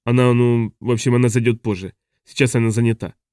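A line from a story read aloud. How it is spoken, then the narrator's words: Mumbling. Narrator (Russian): промямлил Хок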